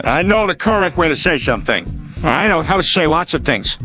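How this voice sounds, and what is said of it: Irish accent. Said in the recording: “I have an Irish accent. ... Irish is beautiful. That accent's pretty.”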